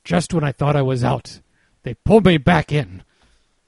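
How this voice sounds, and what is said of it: Bad Al Pacino impression. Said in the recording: “worst Pacino impersonation”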